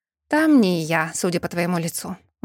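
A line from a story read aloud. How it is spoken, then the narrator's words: Sighing. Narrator (Russian): вздохнула Ингрид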